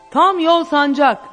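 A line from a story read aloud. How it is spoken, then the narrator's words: Shouting. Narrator (Turkish): diye bağırdı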